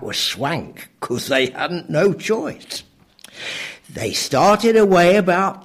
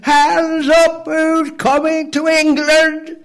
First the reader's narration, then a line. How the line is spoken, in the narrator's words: he lifted his big Norman voice, shouting